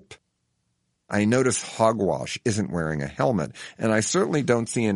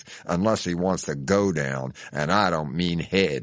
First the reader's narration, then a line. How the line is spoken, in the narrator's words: he snarls in a steely voice